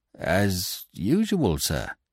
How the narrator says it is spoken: he stammered

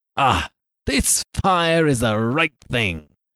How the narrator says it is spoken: cried he

